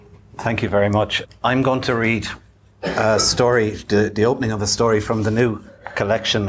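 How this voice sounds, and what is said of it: Usual voice. Nothing is said of it.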